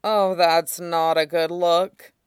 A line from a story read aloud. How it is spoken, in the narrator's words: Huojin groaned